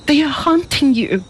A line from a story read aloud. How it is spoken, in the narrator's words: cried